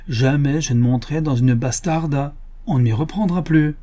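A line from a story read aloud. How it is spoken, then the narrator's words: Exclaimed. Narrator (French): s'écria Cornelio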